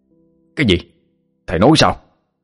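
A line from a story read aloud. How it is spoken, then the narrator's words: Shouted question. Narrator (Vietnamese): A Cắt hỏi như quát lớn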